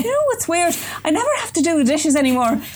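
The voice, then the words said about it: Put-on Irish accent. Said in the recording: “I'm sorry to all Irish people... think I'm from Cork... I got the accent close enough that it was actually any part of Ireland”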